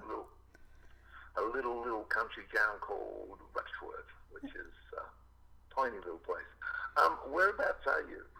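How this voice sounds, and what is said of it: Australian accent. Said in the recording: “I love your accent”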